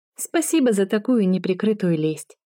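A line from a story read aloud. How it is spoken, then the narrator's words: Laughing. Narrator (Russian): рассмеялась Кэти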